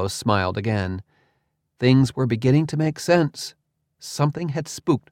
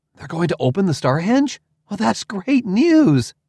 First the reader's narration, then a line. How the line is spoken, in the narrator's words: exclaimed